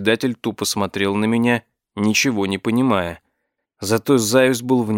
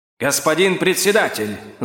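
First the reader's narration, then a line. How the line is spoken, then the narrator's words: Yelling. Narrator (Russian): завопил он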